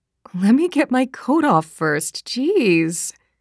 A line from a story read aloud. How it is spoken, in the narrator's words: said Olivia, with a laugh that seemed genuine enough